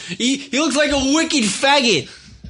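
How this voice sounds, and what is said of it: Put-on Boston accent. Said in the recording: “how do you do the Boston accent?”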